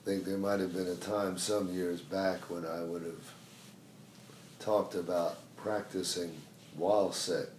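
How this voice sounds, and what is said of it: Weak, failing voice. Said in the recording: “I've practiced being sick ... my voice is going”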